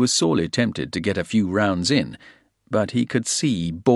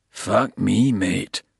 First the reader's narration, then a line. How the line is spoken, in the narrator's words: Bald said under his breath, gazing admiringly